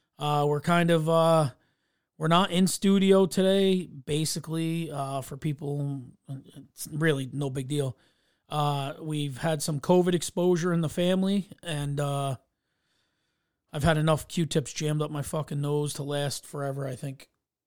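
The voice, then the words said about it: Slightly scratchy voice. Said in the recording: “You can hear my voice is a little scratchy and stuff”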